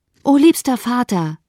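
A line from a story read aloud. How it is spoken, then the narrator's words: Shouted. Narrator (German): rief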